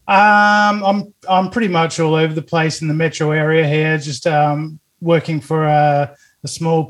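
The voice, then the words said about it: Australian accent. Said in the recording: “What's this accent? ... I'm from Australia”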